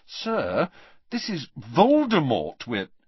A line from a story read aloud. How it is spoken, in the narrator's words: said Harry, trying to keep his voice reasonable